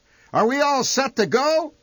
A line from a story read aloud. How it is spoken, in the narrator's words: he shouted